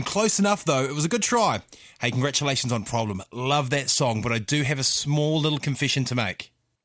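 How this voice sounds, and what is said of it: New Zealand accent. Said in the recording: “where do you think my accent's from? ... New Zealand”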